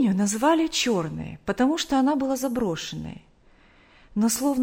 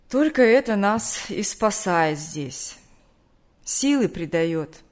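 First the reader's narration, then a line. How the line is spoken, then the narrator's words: Tired. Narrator (Russian): устало сказал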